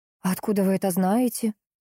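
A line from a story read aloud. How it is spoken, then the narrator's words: Breathless exhale. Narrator (Russian): выдохнула я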